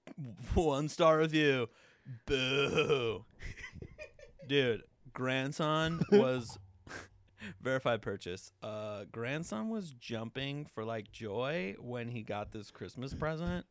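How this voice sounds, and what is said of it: 90s skater punk dude voice. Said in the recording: “90s skater punk ... It's just going to be my voice just toned up a touch”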